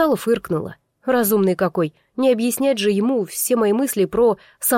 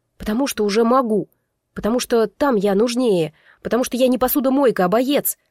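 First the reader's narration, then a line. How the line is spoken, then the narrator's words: Irritated exhale. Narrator (Russian): Раздраженно выдохнула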